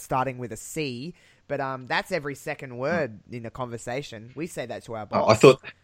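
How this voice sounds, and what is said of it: Fairly thick Australian accent. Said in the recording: “I have a somewhat thick accent ... I do have somewhat of a fairly thick Australian accent”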